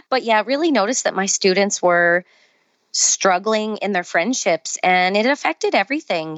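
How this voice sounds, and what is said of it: Canadian accent. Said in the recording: “my Canadian accent, I'm sure, is shining through”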